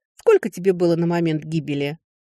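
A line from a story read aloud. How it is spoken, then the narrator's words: Snort. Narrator (Russian): фыркнула я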